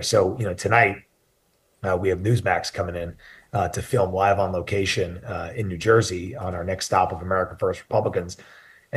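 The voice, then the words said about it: Soft, low, strained voice. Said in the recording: “whenever I'm speaking softly ... I was like speaking low ... not in my normal voice ... my voice box isn't keeping up here”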